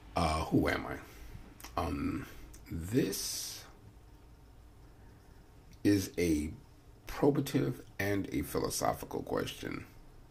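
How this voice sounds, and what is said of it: Slightly hoarse, congested voice. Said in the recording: “I have a little cold right now, so my throat is a little cloudy”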